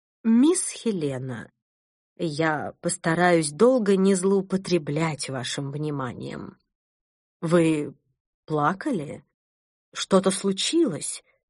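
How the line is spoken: Calm voice. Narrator (Russian): произнесла она спокойным голосом

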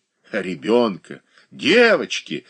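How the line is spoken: Indignant exclamation. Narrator (Russian): воскликнула Анна Васильевна с негодованием

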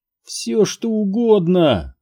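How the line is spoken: Moaning. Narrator (Russian): простонал Сайтримба

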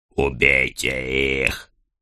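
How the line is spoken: Hissing. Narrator (Russian): прошипел хромой Ганс

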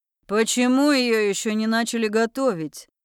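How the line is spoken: Growled. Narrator (Russian): рыкнул мужик

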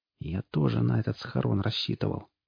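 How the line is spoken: Whispered. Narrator (Russian): прошептал Олвидар

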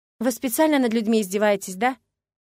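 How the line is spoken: Gloomy question. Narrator (Russian): мрачно спросила

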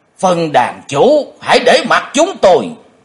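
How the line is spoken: Two old men shouting together. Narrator (Vietnamese): hai lão quái nhân đồng thanh quát lớn

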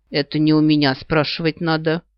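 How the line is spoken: Snorting reply. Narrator (Russian): хмыкнула я в ответ

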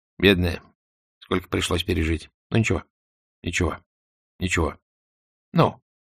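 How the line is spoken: Soothing mumble. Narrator (Russian): Лужин бормотал

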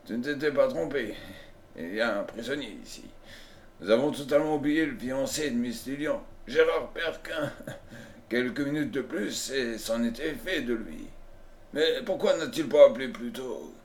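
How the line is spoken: Old miner grumbling. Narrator (French): grommela le vieux mineur

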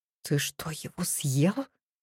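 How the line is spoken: Whispered question. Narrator (Russian): Спрашиваю шепотом

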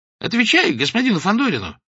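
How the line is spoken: Sharp shout from behind. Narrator (Russian): прикрикнул сзади Клочков

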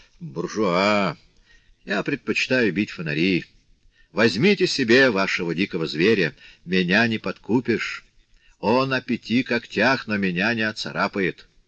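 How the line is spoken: Majestic, grand. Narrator (Russian): с величественным видом сказал

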